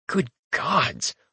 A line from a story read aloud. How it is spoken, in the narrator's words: I mutter